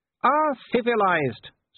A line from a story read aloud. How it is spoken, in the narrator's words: said Wolfgang cheerfully